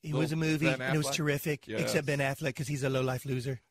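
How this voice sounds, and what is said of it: Imitates another person's voice. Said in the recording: “Can I do the rest of the show imitating Trump, by the way? ... because it's really good, by the way.”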